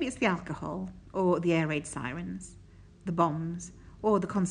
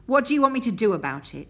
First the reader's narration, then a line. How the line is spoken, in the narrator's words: snaps venomously